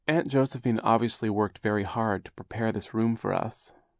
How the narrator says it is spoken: Violet said sadly

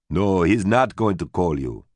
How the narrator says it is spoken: Lloyd said

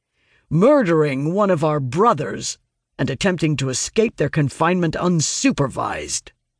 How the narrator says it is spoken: the guard growls

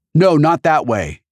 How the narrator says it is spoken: H shouted

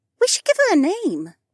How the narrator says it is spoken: Becca piped up

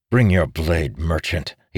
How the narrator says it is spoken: he spat

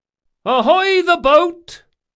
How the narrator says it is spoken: cried a woman at the rail

